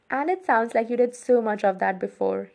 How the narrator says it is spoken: he laughed

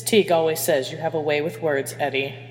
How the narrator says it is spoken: Hermione said dryly

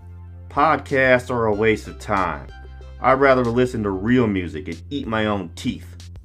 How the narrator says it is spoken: The stranded man snorted

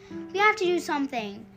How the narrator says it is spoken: said their mom, her voice urgent

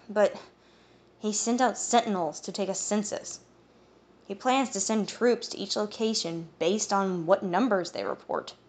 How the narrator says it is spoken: Eowyn sighed

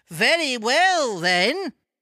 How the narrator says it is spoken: cried the woman

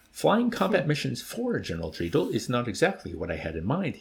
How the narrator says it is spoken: explained, indulgently with a smooth laugh

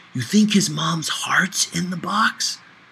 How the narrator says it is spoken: whispered loudly in my ear

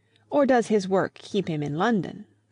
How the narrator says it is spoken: said Miss Teresa, the more acute and less kindly of the two sisters

